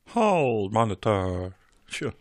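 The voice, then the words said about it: Put-on American accent. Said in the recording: “You sound so American when you do that. ... Just do your American accent”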